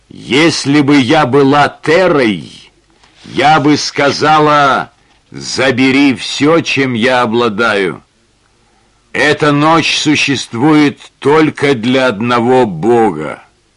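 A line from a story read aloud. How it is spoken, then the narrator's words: Clear voice. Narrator (Russian): Ясным голосом она произнесла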